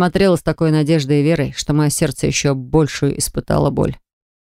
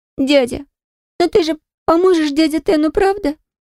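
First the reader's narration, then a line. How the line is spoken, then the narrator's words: Tearful, thin trembling voice. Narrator (Russian): Со слезами на глазах и тоненьким дрожащим голосом спросила меня Кара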